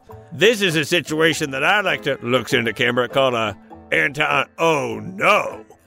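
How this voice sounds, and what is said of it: Jeff Bridges impression. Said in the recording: “Not a terrible Jeff Bridges impersonation.”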